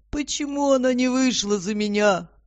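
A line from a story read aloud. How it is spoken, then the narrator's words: Drunken question. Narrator (Russian): пьяным голосом спрашивал Фредди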